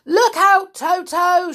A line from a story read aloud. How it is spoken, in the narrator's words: shouted Humpy Rumpy